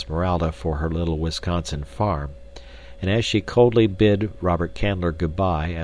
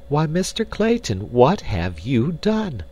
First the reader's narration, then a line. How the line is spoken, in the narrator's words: cried Jane Porter, her heart sinking within her as she realized the probable size of the expenditure that had been made